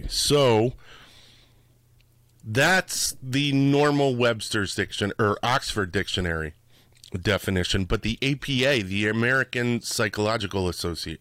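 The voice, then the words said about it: Scratchy voice. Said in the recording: “My voice is a little scratchy.”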